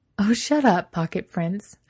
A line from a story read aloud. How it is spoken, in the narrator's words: Adam laughs